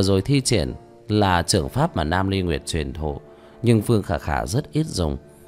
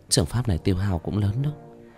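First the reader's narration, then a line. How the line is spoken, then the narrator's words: Relieved muttering. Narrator (Vietnamese): thở phào lẩm bẩm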